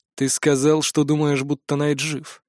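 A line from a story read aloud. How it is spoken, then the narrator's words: Quiet. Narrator (Russian): негромко произнес Атрис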